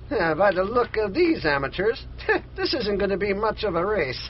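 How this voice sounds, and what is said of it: Scandinavian-accented character voice. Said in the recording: “what the heck is a guy with the name of Gardonioni doing with a Scandinavian accent?”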